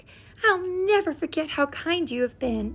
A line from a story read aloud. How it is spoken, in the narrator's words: Iris called back to him in her sweet, clear voice